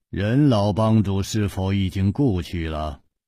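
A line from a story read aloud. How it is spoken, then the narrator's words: Calm, flat after silence. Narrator (Chinese): 天风大师默然半晌，淡淡地说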